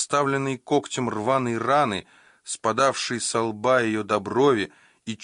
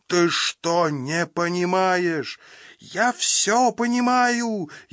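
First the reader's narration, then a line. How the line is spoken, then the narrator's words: Furious shouting woman. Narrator (Russian): яростно закричала она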